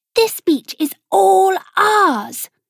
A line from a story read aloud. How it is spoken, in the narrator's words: screeched Gabriella